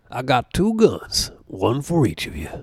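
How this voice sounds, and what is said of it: Movie character impression, Kentucky accent. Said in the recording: “That Kentucky accent”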